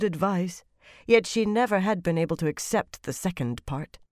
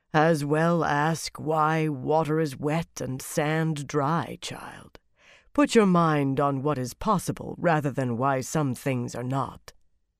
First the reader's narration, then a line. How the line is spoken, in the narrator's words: Turanin had said in that memorable deep voice